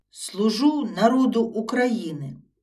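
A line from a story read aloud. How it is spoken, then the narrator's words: Dashing exclamation. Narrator (Ukrainian): Хвацько вигукнув Йосип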